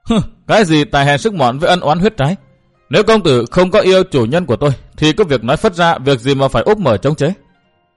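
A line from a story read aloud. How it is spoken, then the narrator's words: Choked sobbing. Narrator (Vietnamese): Cô ta chưa nói hết câu thì đã nghẹn ngào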